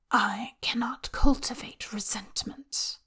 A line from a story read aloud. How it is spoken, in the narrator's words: the voice whispers through his skull